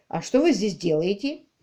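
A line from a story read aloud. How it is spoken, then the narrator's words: Plain question. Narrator (Russian): спросил Квиллер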